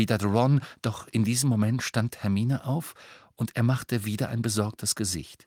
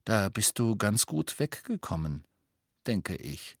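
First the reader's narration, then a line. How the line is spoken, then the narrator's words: Murmured. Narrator (German): murmelte Harry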